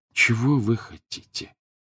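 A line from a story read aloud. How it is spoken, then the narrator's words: Gloomy question. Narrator (Russian): уныло спросил Гарри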